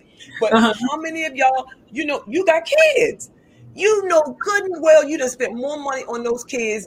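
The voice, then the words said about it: Southern drawl accent. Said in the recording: “y'all going to hear a little bit of southern drawl”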